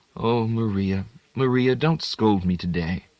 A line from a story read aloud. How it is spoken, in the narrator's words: because the old woman was huffed, she made up to her again, whispering